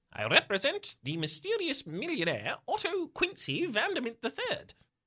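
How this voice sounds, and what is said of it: Clipped British accent. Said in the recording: “he says in a clipped British accent.”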